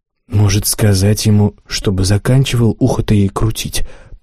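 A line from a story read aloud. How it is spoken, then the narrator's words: Whispered. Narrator (Russian): прошептал я Роберу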